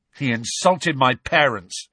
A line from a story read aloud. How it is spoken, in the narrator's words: snarled George